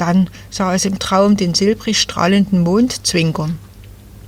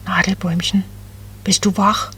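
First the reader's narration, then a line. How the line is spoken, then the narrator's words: Very soft cooing. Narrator (German): Ganz leise gurrte Becky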